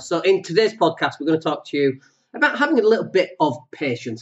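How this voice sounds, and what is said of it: Slightly funny-sounding, under-the-weather voice. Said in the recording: “my voice sounds a little bit funny, I've had a little bit of man flu this week”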